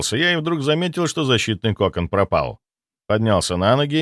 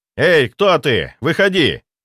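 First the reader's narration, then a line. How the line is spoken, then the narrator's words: Shout. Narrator (Russian): прокричал я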